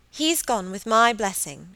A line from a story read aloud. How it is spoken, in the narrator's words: she cried